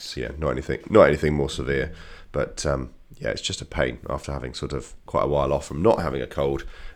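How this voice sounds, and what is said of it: Congested voice from a cold. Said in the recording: “I'm sure you can tell from my voice. I've got a bit of a cold. ... I sound extra interesting today.”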